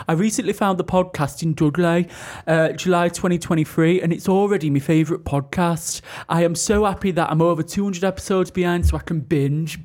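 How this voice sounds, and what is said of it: Put-on Dudley accent. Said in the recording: “Right, I can do Dudley... Loved the review, hated the accent.”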